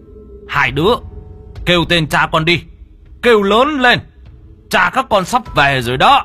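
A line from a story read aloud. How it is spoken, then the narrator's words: Loud shout. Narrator (Vietnamese): Ông hét lớn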